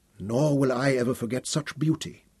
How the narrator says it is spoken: Yasmini whispered

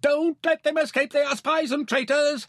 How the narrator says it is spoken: Her bodyguard shouting to the guards at the gate

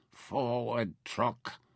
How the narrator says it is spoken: Nefer murmured

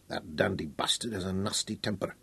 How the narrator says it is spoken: he growled

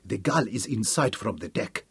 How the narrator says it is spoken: he told Hal softly

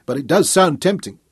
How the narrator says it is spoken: she laughed

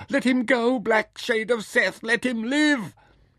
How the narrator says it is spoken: screamed in the uproar

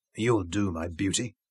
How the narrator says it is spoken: Zuga whispered

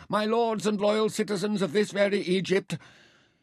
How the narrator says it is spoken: She cried

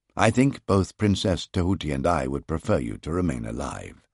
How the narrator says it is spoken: I remarked dryly

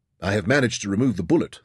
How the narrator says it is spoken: assured

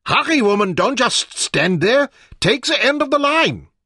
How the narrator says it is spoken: shouted impatiently

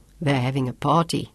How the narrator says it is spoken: Sean chuckled

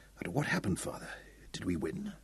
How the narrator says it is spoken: He whispered

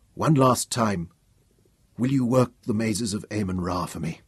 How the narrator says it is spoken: murmured

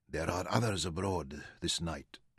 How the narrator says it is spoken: Istaf whispered

